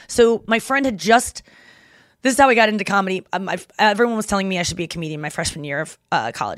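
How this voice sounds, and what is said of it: Talking very fast. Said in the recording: “Sorry, I'm talking so fast.”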